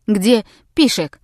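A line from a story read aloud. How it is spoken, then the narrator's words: Old woman's sharp question. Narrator (Russian): резко спросила одна старая сквау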